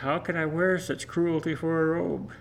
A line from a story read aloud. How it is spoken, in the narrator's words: Sadly, the king said